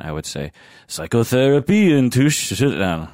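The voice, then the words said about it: Caricatured French accent, deliberately bad. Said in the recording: “my best caricature of French accent... That's terrible.”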